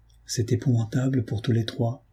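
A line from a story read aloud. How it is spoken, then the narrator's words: Murmuring. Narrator (French): murmurai-je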